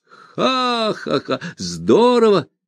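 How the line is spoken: Laughing. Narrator (Russian): рассмеялся Ганс Кастр

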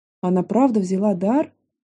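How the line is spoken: Quiet hopeful question. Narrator (Russian): Тихо спросила, надеясь услышать опровержение

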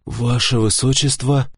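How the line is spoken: Relieved sigh. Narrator (Russian): вздохнул я свободнее

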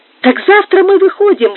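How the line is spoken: Exclaimed. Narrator (Russian): воскликнул Алио

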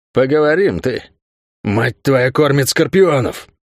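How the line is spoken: Hissed curse. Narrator (Russian): Прошипел он дагеварское проклятие

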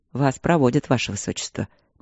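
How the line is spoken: Soft gentle speech. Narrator (Russian): мягко сказал Игорь

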